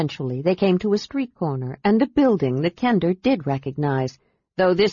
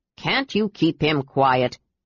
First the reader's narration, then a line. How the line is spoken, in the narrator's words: Derek grumbled